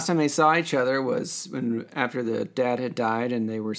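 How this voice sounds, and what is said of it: Usual voice. Nothing is said of it.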